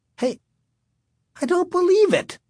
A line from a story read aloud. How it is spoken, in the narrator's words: Sherry cried